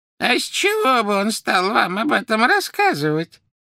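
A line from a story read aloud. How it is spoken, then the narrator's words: Creaky voice. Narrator (Russian): проскрипела Мюриэль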